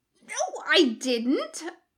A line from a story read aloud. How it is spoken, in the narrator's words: Jim squeaks